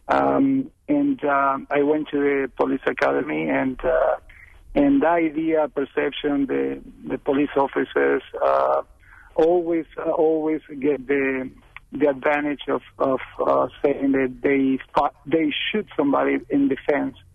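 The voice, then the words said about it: Speaks with a noticeable accent. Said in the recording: “as you can tell, I have an accent”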